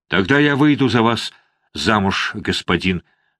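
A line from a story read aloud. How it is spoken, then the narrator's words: Plain. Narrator (Russian): сказала она ему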